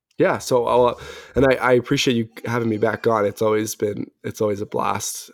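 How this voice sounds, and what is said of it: Slightly raspy voice. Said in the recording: “my voice is a little raspy still”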